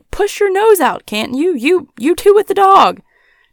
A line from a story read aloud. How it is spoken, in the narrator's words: another voice cried